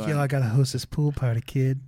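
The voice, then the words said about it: Bad impression of a friend. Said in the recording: “That's my impression. I'm gonna just keep doing that. ... Really bad.”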